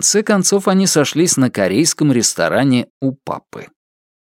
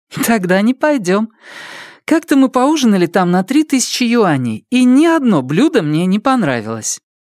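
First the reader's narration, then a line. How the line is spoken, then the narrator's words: Laughing. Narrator (Russian): Смеясь, она сказала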